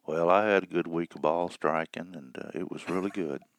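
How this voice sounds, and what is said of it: Flat, mellow impression of DJ. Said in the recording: “my DJ imitation ... the guy doesn't come off of center. He's just the highs and the lows are all mellowed out perfectly”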